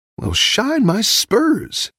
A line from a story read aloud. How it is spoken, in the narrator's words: Woody exclaimed